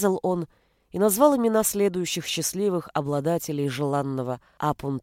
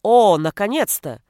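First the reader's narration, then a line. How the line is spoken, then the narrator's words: Shout from doorway. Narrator (Russian): крикнул Рикардо с порога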